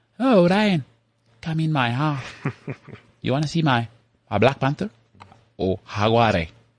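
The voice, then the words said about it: Put-on accent imitating another person. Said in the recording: “careful. New Metro might unfollow you with that accent ... It's not as on point as your previous one ... Salma Hayek, yeah.”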